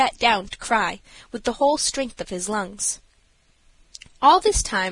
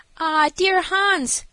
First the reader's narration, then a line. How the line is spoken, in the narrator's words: cried Alice